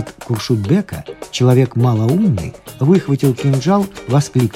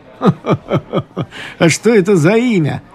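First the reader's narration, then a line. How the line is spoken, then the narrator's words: Laughing exclamation. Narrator (Russian): воскликнул тот со смехом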